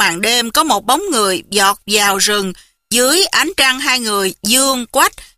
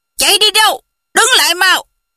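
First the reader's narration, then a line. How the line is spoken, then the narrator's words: Distant group shouting. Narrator (Vietnamese): xa xa có mấy người lớn tiếng quát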